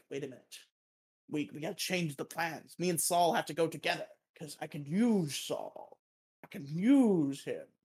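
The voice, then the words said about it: Bad Walter White impression. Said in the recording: “you don't have a good Walt impression, just stop it. ... It's funny because it's bad. ... it's funny because it's unoriginal.”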